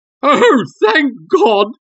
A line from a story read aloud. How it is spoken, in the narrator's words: he cried